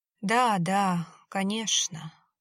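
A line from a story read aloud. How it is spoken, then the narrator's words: Sighing. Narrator (Russian): вздохнул Кеша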